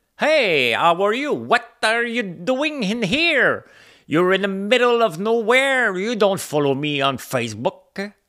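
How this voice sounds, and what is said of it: Broken English, heavy French accent. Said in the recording (French): “mon anglais approximatif, plein d'accent, mais fier”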